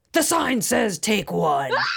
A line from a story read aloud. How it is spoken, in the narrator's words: shout